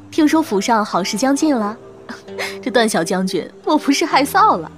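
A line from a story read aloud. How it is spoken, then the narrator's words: Women laughing teasingly. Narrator (Chinese): 女眷们笑说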